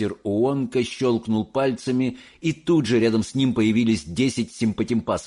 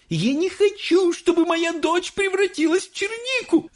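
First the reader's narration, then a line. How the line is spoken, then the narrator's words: Screaming woman. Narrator (Russian): завопила миссис Боригард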